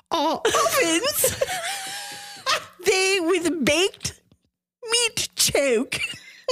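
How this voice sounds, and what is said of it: Put-on old English accent. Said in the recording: “speak in old English ... you clock me on that accent ... All of my bad accents are forgiven after what just came out of her mouth”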